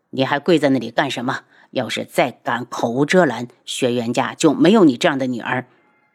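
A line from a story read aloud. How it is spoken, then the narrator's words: Cold voice. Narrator (Chinese): 他冷声道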